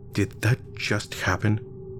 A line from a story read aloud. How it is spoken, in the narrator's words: I asked, trying to keep my voice quiet